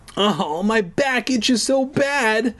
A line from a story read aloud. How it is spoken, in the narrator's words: I wailed